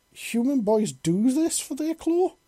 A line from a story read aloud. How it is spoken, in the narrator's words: She exclaimed